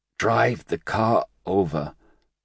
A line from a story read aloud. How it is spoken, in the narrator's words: Ray Diaz wheezed out